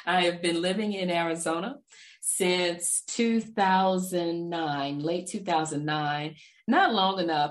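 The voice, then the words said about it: Texas Southern accent. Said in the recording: “I can't get rid of the Texas accent”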